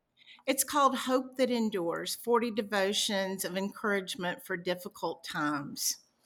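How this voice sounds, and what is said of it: Light Southern US accent. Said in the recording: “she has this glorious Southern accent ... You do a little bit there, girl ... Just a little bit.”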